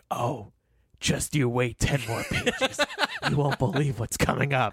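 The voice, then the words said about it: Imitates another person's voice. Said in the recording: “it's hard to do that Kevin voice... you're excelling at it, though. It's pretty good.”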